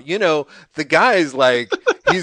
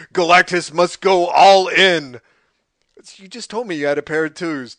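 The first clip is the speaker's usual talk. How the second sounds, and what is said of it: Impression of the Galactus character. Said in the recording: “your impression there is you did the same thing Burton does, which is he switches between third and first person for no reason”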